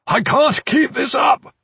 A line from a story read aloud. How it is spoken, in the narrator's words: Iron Fist shouted, his voice strained